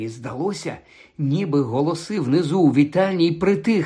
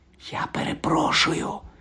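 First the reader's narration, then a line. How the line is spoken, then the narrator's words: Whispered. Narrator (Ukrainian): прошепотів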